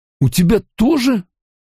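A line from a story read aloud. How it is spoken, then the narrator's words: Forced out. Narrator (Russian): выдавил он наконец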